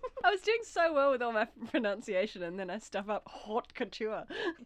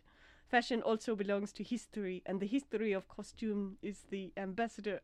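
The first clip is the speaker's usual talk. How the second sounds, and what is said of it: Put-on accent slipping. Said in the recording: “I'm losing my accent.”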